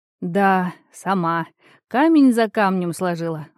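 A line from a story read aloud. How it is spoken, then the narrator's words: Sighing. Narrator (Russian): вздохнула она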